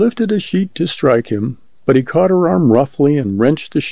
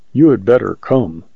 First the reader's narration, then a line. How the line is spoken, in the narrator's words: said Canute quietly